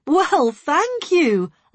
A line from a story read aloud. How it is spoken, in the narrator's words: I laughed